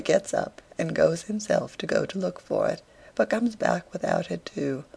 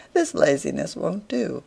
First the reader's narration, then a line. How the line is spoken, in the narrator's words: says he merrily